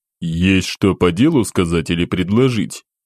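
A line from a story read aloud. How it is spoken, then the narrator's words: Low chesty curt reply. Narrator (Russian): низким грудным голосом бросил в ответ командир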